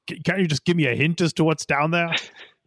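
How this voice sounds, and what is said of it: Captain Picard character impression. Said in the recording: “That's my Picard impression ... That was your Picard. That was totally Picard. Perfect. Uncanny.”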